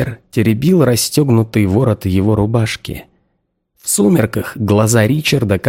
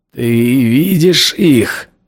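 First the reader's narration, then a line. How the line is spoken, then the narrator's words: Hoarse. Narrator (Russian): хрипло сказал я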